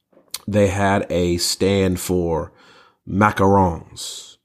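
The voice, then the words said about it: Attempted French accent. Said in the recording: “That's me trying to fake a French accent.”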